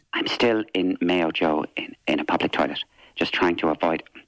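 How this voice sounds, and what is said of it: Whispering. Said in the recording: “why are you whispering”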